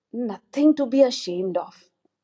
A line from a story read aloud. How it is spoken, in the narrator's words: he said in a confiding tone